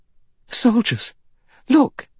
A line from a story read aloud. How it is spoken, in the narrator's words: She cried